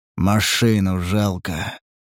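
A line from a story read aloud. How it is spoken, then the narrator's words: Dejected voice. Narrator (Russian): начал он упавшим голосом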